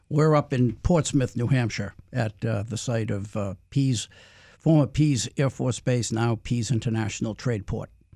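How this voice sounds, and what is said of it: New England accent. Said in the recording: “if you notice a New England accent today, there's a reason for that”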